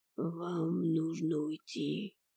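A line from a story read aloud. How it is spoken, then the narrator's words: Deep growl. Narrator (Russian): утробно прорычал дворецкий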